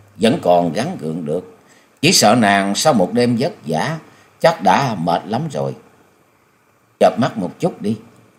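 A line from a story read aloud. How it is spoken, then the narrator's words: Smiling, gentle. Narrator (Vietnamese): Nhậm Xương Bạch mỉm cười nói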